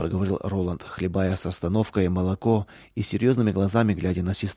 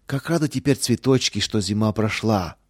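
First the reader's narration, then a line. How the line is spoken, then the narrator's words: Joyful echo. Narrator (Russian): радостно вторила ему Лидия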